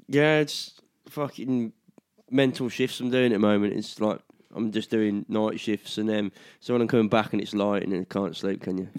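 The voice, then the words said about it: Husky, hoarse voice. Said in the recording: “my throat's fucking hurting ... You've got a husky, sexy voice.”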